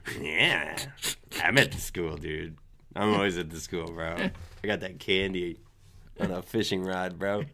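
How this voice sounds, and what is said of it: Character voice with Boston-style accent. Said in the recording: “your impression of summer school mean sound like fucking he's from Boston ... sound like they're from New York or Boston”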